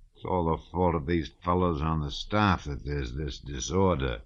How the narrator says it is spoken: he muttered

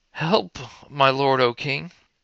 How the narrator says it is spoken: a woman cried to him, saying

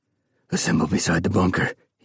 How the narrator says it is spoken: he croaked

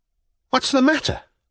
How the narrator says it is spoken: cried Velchaninov

